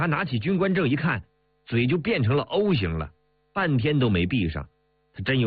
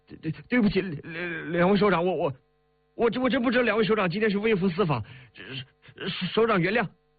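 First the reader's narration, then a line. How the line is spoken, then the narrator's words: Stammering. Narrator (Chinese): 他结结巴巴的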